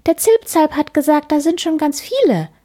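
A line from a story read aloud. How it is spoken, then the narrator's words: Excited answer. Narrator (German): antwortet Piepmatz aufgeregt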